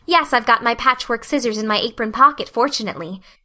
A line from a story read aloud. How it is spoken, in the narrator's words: said Anne